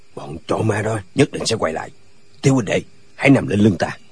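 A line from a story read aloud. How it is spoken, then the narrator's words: Old man, softly. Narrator (Vietnamese): Lão nói khẽ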